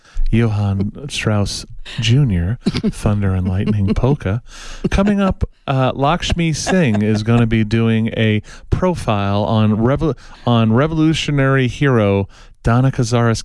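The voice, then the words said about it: Mock NPR radio announcer voice. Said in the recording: “I should have done my NPR voice. ... Got out of my little NPR thing there for a while.”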